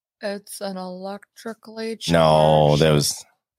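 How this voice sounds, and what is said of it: Dry, boring professor-like lecturing voice. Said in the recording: “Could you say that any drier? ... Can you do it more boring? Do it more like a scientist, like your professor in school ... Now you're doing an impression.”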